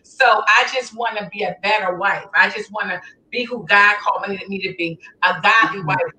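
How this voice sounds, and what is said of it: Philadelphia accent. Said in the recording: “that accent ain't going to, I don't know if it's going to ever leave you. Philly accent.”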